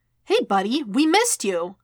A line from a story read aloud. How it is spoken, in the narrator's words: Wade chirped